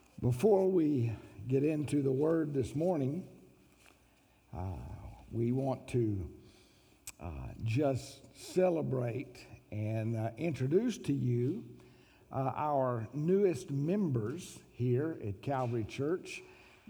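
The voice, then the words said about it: Voice sounds worse than usual. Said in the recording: “apologize for my voice today. It's going to probably sound even worse than it does most of the time”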